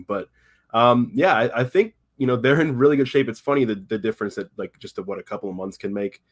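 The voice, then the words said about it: Slightly hoarse voice. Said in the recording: “my spoken voice is actually a little hoarse right now. I'm dealing with a little bit of a sickness from lack of sleep”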